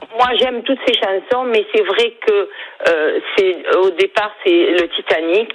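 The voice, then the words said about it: Slight Perpignan French accent. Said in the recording (French): “J'ai l'accent perpignanais ... on sent le petit accent”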